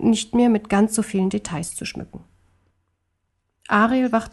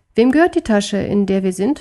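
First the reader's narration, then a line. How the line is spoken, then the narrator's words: Plain question. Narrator (German): fragte Wuff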